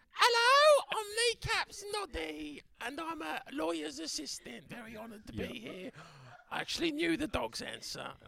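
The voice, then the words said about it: Character voice, same accent, different pitch. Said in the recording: “sounds like you've got a very similar accent, just a different pitch.”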